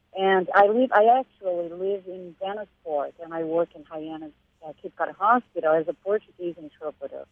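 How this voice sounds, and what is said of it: Brazilian Portuguese accent. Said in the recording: “I am originally from Brazil, as you probably have noticed by my accent.”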